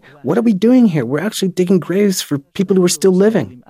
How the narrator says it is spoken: they got so scared, they actually ran away, yelling

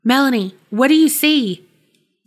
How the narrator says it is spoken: James called out

